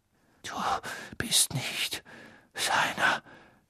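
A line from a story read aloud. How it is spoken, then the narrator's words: Whispered. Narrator (German): flüsterte Crouch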